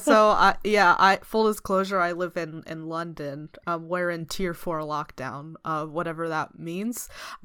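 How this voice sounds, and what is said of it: American accent. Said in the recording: “Despite the American accent”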